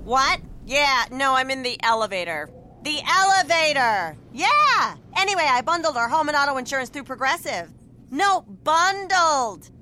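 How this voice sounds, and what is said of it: Loud shouting phone caller in elevator. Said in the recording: “my impression of a person having a phone conversation in the elevator”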